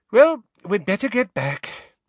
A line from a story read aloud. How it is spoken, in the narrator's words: sighed Mrs